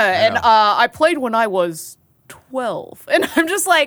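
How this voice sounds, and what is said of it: Usual voice. Nothing is said of it.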